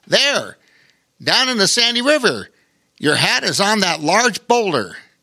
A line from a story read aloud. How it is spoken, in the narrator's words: Pilot Patty called out